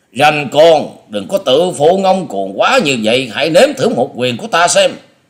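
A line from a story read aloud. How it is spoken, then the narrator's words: Angry roar. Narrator (Vietnamese): Lão thầy Lôi Điểu Nhiếp Hồn trợn mắt gầm lên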